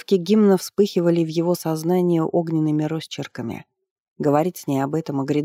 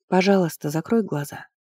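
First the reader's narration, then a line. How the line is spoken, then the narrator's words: Quiet request, priestess. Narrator (Russian): тихо попросила жрица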